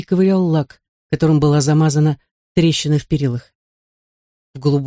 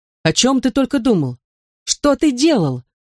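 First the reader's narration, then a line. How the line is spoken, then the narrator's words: Mother's exclamation. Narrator (Russian): воскликнула мать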